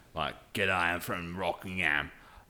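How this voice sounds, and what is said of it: Put-on broad Australian accent. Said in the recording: “a very broad accent... That's my Australian accent, perfect. Obviously.”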